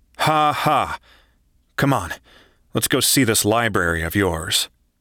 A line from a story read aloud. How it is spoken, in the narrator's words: he pursed his lips in annoyance and replied